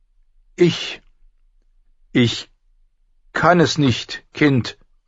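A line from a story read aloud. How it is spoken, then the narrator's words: Loud call. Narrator (German): rief sie laut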